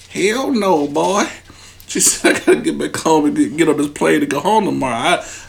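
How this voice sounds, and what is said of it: Put-on country voice. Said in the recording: “Why you sounding so country?”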